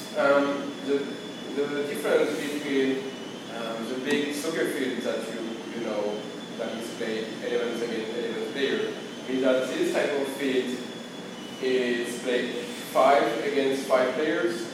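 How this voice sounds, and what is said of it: Speaks with a non-native accent. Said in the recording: “if you don't understand my accent”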